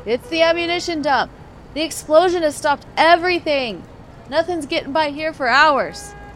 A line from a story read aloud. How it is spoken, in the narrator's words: A soldier called out